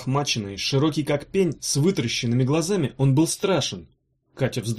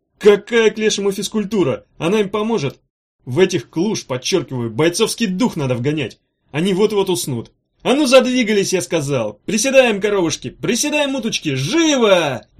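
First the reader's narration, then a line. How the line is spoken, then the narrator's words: Harsh, frightening shout. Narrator (Russian): Резко и страшно крикнул Чемоданов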